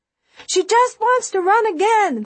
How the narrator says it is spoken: they shout in unison

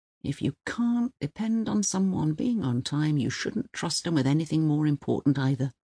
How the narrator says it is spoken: he used to mutter when people came dribbling along with their clocking-in cards 3 or 4 minutes late

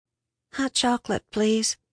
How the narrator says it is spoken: she mumbled

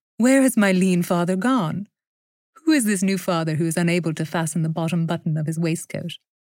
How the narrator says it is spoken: she said, laughing

